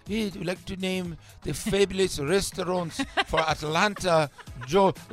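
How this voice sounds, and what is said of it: Put-on French accent. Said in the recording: “there's this woman with this French accent.”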